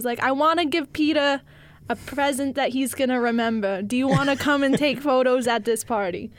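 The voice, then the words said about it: Brooklyn Jewish woman's voice. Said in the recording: “she's a Jewish lady from Brooklyn ... That was a decent impression ... that was pretty good”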